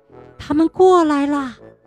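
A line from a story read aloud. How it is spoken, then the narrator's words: Whisper. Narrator (Chinese): 小火花小声地说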